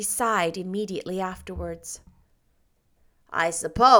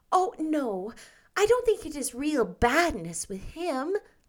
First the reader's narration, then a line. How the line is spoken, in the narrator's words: pleaded Anne